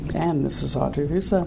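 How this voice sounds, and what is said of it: Put-on sexy voice. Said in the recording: “I was trying to figure out my sexy voice.”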